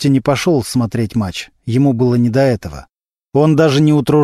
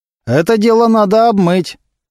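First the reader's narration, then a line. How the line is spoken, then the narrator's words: Loud. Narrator (Russian): громко сказал один из его поклонников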